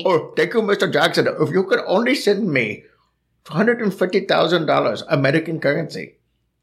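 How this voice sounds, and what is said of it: Put-on Indian accent. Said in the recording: “that's a that's an Indian accent.”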